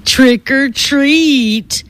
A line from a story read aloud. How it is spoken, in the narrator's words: the boy in front said in a nasty, mocking voice